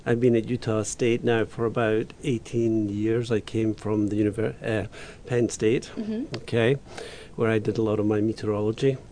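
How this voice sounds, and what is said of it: Scottish accent. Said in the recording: “I'm originally from Scotland, as you can tell from my accent.”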